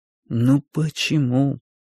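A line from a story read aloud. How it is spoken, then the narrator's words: Sad thought. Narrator (Russian): печально думал я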